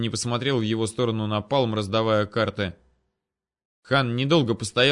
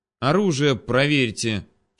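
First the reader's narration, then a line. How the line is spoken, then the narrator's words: Disdainful words through teeth. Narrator (Russian): через губу процедил подошедший хан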